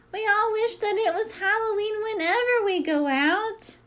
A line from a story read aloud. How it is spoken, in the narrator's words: laughing, they shout